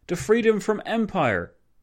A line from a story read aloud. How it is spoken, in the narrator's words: O'Kelly exclaiming